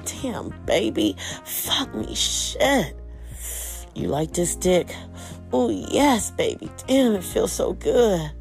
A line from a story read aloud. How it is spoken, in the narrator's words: moaned again and said